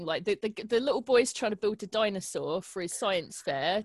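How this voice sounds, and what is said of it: Strong regional accent. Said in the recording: “it's my fucking accent that Alexa can't even understand”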